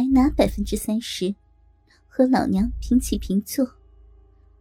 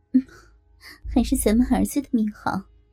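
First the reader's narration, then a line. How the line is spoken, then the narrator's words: Sighing. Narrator (Chinese): 郭雨山叹了口气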